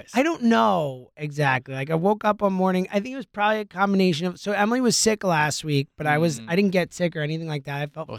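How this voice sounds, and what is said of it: Hoarse, nearly lost voice. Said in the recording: “My voice is shot. ... lost your voice. ... I lost my voice over the weekend”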